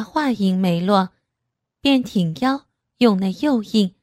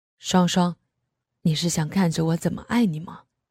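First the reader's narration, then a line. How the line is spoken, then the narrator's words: Low, intimate murmur. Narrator (Chinese): 低声道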